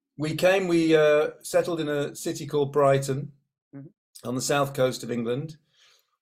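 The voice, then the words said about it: Groggy, not-yet-woken-up voice. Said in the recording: “It's early here. My voice hasn't woken up.”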